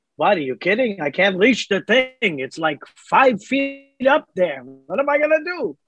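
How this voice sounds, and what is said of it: Imitates another person's voice, weird accent. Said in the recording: “Shane Salk with a weird accent... it's in that accent”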